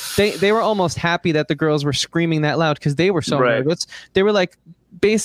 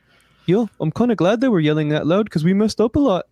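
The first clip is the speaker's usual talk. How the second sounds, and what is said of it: Weak attempt at Irish accent. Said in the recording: “It was a very Irish accent. I'm not good at accents”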